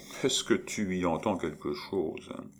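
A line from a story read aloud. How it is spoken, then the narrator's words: Murmured. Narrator (French): Maurice en murmurant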